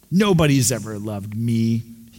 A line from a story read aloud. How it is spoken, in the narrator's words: he replied bitterly